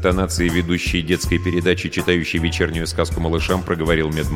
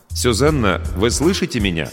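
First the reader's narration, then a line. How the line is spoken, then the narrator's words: Trying to sound calm, confident. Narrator (Russian): Ковалев старался говорить спокойно и уверенно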